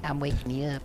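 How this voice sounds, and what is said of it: Put-on silly voice. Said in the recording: “Why are you doing a voice?”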